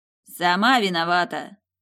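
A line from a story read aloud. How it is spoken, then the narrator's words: Spat out angrily. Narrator (Russian): зло выплюнул Платиновый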